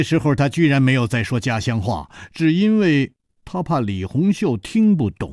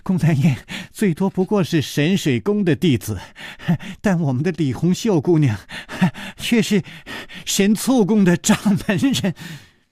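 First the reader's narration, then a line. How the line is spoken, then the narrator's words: Breathless laughter. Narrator (Chinese): 宋田儿弯着腰喘着气笑着说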